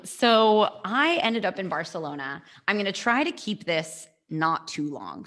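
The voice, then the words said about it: Accent clearly not from Barcelona. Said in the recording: “You can't tell from my accent that I'm not from Barcelona.”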